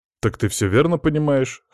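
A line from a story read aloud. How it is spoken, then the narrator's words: Snorting. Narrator (Russian): хмыкнул я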